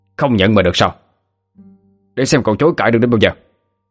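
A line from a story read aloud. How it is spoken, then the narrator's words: Angry shout. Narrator (Vietnamese): quát lên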